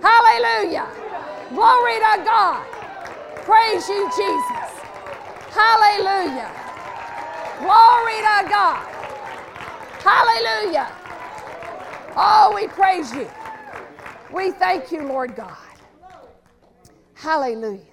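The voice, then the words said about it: Excited hollering, loud shouted praise. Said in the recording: “I get so excited, I get to hollering. And that doesn't do my voice good.”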